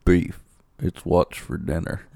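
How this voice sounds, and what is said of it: Quiet whispery Sam Elliott impression. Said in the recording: “I wish I could do a Sam Elliott voice ... I just go really quiet. That's kind of creepy. You just whisper it.”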